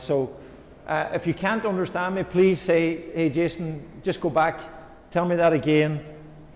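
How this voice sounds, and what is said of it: Irish accent. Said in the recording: “I'm Irish. My accent, I hope, is not too difficult to understand.”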